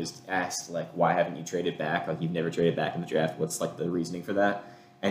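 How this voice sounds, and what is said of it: Usual voice. Nothing is said of it.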